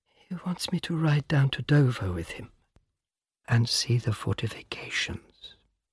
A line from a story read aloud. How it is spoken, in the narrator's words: She whispers